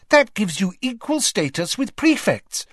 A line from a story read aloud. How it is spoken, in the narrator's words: cried Hermione happily